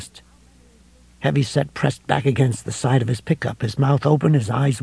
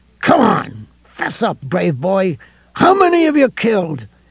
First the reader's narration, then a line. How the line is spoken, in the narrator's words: His voice rose to a shriek that was lost in the coming storm's first really authoritative clap of thunder